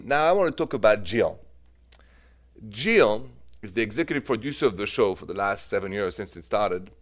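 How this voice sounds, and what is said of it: French-accented English. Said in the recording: “The accent, by the way, is French. The accent is French”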